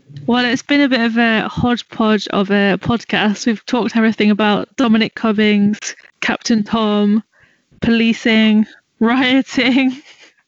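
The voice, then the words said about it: British accent. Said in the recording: “anything in a British accent sounds more authoritative”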